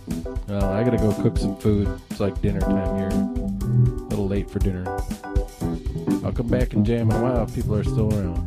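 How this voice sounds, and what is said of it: Minnesota accent. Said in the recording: “It's a Minnesota accent, man. Minnesota.”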